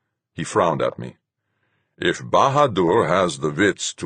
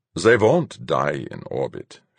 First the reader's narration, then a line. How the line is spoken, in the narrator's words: Fuchs said calmly